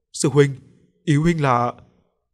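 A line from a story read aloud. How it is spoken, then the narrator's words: Stammering question. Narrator (Vietnamese): lắp bắp hỏi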